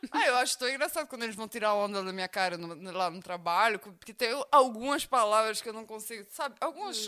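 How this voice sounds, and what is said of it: Cute foreign accent in Portuguese. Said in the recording (Portuguese): “seu sotaque, porque o povo tá apaixonando pelo seu sotaque ... é um sotaque bonitinho mesmo, é muito fofo seu ... falando igual uma russa”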